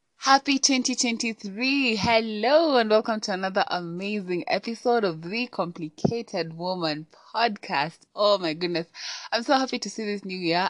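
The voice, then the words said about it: Excited, upbeat voice. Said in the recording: “tell from my voice, but I am super excited”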